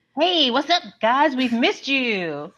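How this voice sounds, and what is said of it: Cartoonish Looney Tunes style voice. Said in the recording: “what was that voice? ... that was very Looney Tunes. That was very Space Jam esque.”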